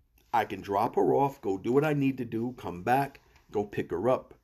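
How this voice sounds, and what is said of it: New York accent slipping out. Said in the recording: “I actually just heard my New York accent come out.”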